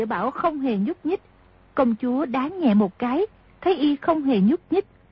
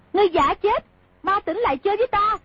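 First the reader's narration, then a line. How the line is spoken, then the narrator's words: Angry shout. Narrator (Vietnamese): Công chúa tức giận quát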